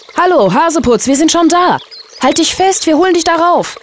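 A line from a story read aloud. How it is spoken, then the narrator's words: Called down. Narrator (German): rief Mo zu dem kleinen Häschen hinunter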